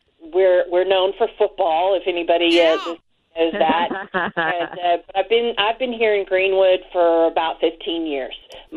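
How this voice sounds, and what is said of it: Slight Southern US accent. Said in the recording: “you've got a little bit of a southern accent that I can't stop listening to”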